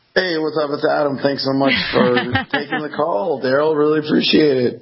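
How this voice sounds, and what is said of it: Slightly hoarse voice. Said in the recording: “you got your voice back. Almost. ... It sounds terrible on my end still. ... you do sound a little hoarse there”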